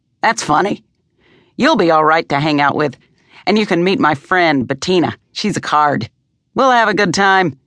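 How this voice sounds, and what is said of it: Peremptory, commanding old woman's voice. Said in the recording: “said the woman in a peremptory voice”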